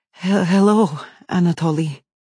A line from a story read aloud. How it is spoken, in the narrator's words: she stutters, her voice shaky and full of fear